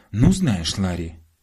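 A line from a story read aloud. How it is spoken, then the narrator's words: Mother's angry exclamation. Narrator (Russian): гневно воскликнула мама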